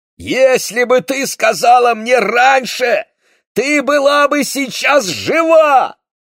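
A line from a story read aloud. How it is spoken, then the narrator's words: Shouting. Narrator (Russian): кричал Моше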